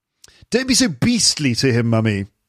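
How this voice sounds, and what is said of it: Posh British accent. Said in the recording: “Sounds really posh ... if you say, oh mummy, you sound really posh”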